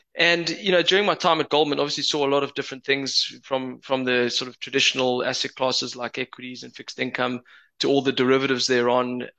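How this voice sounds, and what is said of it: Johannesburg South African accent. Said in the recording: “I haven't been able to shake my Joburg accent. I've been here 18 years, but can't shake it.”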